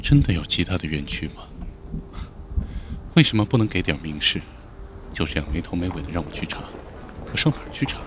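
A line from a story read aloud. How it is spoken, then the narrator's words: Quiet muttering. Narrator (Chinese): 李安 小声的嘀咕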